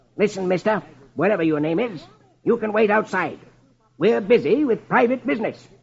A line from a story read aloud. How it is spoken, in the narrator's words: Marlowe snaps